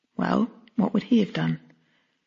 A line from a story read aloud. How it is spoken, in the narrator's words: I faltered